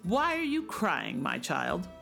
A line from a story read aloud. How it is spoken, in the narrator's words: croaked the little man